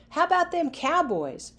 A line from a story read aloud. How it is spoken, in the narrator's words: Players yelled